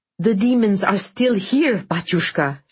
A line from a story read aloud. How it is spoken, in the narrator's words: she cried